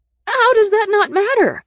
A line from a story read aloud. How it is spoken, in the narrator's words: I cried